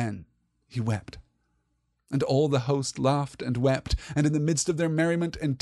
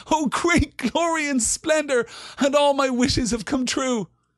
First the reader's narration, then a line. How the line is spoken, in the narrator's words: he laughed aloud for sheer delight, and he stood up and cried